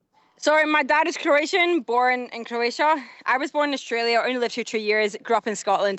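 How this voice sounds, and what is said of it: Scottish accent. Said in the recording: “I wasn't expecting a Scottish accent”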